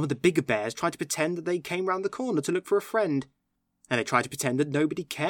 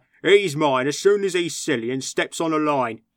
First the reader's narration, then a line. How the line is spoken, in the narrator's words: the little bears growl to each other